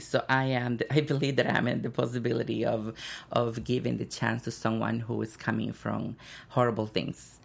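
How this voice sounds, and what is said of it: Accented English speech. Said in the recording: “kind of like trying to figure out my accent”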